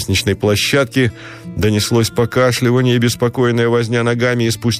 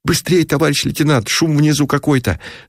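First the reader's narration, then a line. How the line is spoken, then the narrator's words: Hoarse wheeze. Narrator (Russian): Засипел у Шатиков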